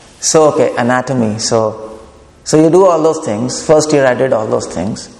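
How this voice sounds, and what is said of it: Indian English accent. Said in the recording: “My accent is not my Indian”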